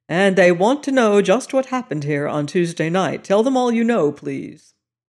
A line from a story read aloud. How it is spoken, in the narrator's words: he said sharply